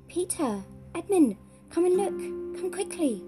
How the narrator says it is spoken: she at once cried out

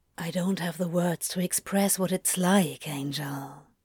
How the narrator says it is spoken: he whispered instead

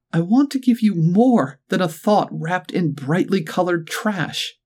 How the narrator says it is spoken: she cried

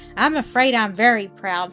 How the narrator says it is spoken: said Mildred, laughing and blushing

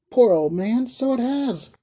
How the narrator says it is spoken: cried Mrs

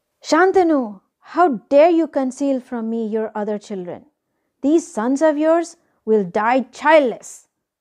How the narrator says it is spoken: Ganga screamed

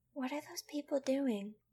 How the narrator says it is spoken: Angel whispered

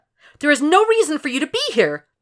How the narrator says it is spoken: she says in a loud voice, like she wants to shout, but she has some respect for the ill

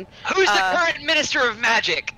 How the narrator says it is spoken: shouting

